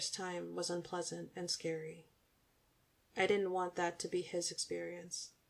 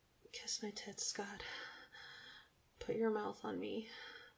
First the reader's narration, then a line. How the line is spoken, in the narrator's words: I purred